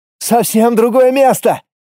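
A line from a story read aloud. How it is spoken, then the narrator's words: Joyful yell. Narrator (Russian): радостно заорал первый посетитель нового мира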